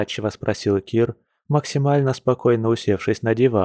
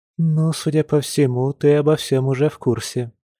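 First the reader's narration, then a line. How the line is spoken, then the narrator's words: Deep sigh. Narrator (Russian): глубоко вздохнула Марго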